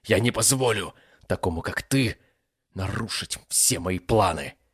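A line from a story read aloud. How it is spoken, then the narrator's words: Young clan head roaring, halting. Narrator (Russian): Прерывисто взревел молодой глава клана Синкров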